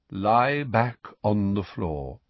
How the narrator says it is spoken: said Firenze in his calm voice

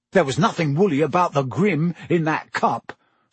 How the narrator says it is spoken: said Ron hotly

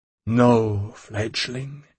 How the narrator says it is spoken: he sighed

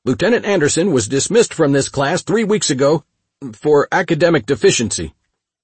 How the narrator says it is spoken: shouted

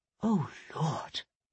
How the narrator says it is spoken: Hero whispered

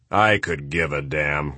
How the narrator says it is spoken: growled the general

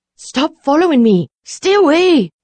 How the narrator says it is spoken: she cried, quickening her pace

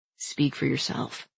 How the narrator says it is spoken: Nick muttered

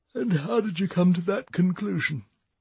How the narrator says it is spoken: yawned Eric

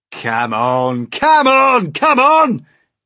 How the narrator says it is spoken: shouted the centipede

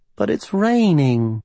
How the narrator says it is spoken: Livy cooed from under the sheets

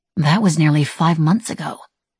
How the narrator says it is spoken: Kieran murmured

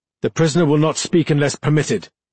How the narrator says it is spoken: Iltis barked

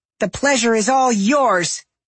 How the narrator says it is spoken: Safi snapped

